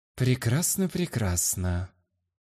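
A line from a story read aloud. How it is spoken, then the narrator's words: Muttering. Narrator (Russian): Пробормотал я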